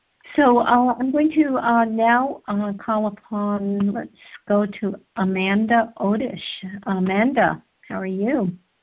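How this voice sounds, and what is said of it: Tired-sounding voice. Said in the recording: “I'm a little bit tired tonight. You probably hear it in my voice.”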